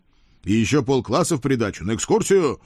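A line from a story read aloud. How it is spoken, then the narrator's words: Barked. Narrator (Russian): рявкнул я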